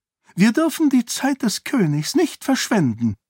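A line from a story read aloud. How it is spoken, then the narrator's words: High-pitched voice. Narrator (German): sagte Eschen mit hoher Stimme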